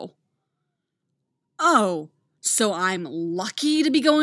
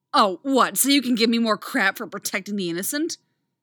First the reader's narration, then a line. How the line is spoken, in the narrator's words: Artemis snarls